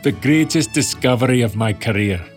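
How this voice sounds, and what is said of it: Poor put-on Scottish accent. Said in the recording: “if you'll pardon my terrible Scottish accent.”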